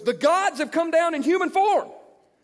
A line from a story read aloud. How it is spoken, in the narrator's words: the crowd saw what Paul had done, they shouted in the Lyconian language